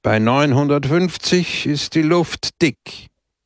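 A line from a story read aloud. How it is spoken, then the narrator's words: Raised voice. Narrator (German): sagte er mit erhobener Stimme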